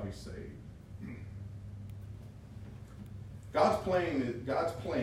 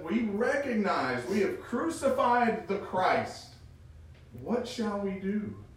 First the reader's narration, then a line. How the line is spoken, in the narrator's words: the pleading